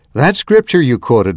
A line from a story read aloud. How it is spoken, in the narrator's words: Mother said